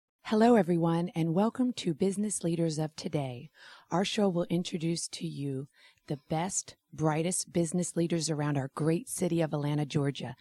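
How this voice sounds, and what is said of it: Raspy, hoarse voice. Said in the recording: “Excuse the raspy voice. I had a girls' weekend in Tampa. ... no karaoke on girls' weekend anymore.”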